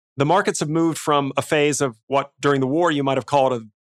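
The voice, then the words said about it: Speaks with a non-local accent. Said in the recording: “don't let the accent fool you.”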